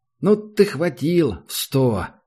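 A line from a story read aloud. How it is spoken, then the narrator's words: Doubtful drawl, young man. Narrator (Russian): недоверчиво протянул один из молодых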